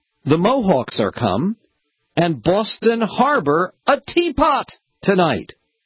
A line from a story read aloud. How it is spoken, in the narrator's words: there were a group of people who shouted out